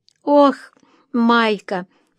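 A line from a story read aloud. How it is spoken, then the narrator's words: Moan. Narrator (Russian): простонала она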